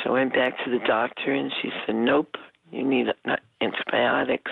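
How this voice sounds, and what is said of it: Slightly hoarse voice. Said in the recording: “my throat is, like, still a little sore, so I'm a little hoarse.”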